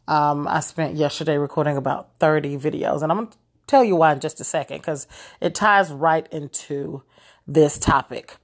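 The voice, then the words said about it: Slightly hoarse voice. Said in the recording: “forgive my voice, I'm a little bit hoarse.”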